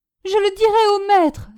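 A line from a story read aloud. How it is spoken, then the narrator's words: Sobbing. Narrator (French): sanglota Innocent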